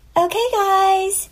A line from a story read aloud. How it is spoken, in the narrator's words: a perky girl dressed as She-Hulk called out